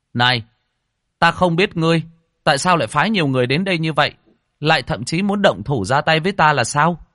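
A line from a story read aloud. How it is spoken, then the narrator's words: Raised voice. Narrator (Vietnamese): Lâm Phàm cao giọng nói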